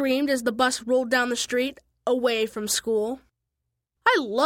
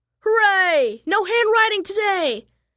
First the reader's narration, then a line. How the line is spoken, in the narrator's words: yelled Pinky